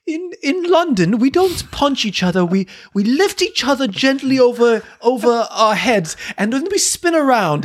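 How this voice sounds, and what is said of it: Awful put-on British accent. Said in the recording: “I always speak in an awful British accent”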